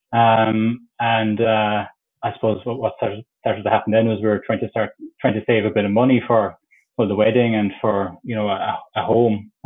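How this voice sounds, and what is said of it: Irish Cork accent. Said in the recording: “I'm from Cork, if you couldn't tell from the accent”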